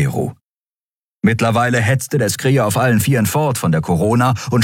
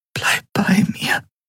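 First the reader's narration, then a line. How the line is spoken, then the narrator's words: Whispered. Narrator (German): flüsterte sie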